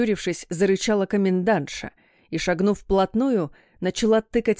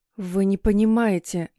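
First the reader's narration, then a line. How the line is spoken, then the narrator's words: Resigned moan. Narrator (Russian): обреченно простонала я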